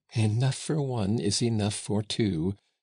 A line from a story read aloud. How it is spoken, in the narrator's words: she answered, laughing